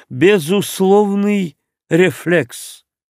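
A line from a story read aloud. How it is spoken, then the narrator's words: Calmer. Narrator (Russian): И он уже более спокойно добавил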